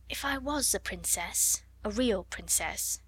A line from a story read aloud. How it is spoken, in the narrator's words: she murmured